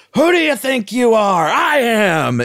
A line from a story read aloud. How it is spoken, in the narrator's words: He gets so fired up and he's screaming and he just goes